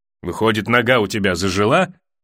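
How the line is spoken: Snorting. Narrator (Russian): хмыкнул Ноя

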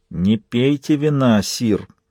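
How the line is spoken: Hissed. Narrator (Russian): прошипел Эгг

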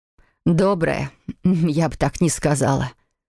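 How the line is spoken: Murmur. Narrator (Russian): пробормотала она

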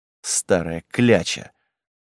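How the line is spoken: Grumbling. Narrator (Russian): проворчал Гавар

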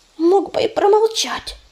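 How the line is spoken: Angry squirrel hiss. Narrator (Russian): сердито прошипела белка

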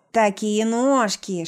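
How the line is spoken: Lisping, barely intelligible. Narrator (Russian): шепелявит еле внятно

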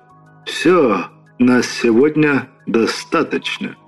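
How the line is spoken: Tired speech. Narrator (Russian): произнес Иосиф Виссарионович, устало

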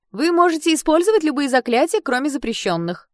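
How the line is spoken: Loud announcement. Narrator (Russian): громко объявила одна из подружек Шиа

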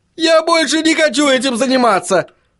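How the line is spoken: Wailing yell. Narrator (Russian): завопил Чарли

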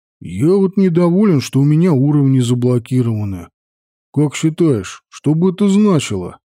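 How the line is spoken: Plain question. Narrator (Russian): спросил Петька

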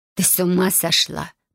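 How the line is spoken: Hiss. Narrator (Russian): прошипела Габриэла

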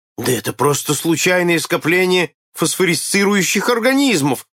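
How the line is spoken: Exclamation. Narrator (Russian): воскликнул один офицер

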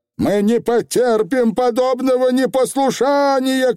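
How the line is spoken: Shouting aunt. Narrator (Russian): крикнула тетя Данута

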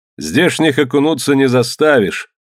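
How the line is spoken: Cheerful. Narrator (Russian): весело сказал Нерх

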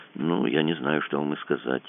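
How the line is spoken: Confused mumble. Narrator (Russian): промямлил Кацуба с видом полнейшей растерянности

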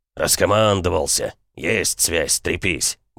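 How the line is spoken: Grumbling. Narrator (Russian): бурчал он

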